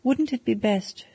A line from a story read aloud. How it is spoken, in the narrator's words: she continued, speaking nervously